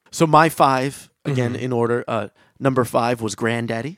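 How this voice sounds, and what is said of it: Usual voice. Nothing is said of it.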